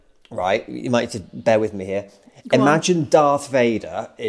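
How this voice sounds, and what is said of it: Usual voice. Nothing is said of it.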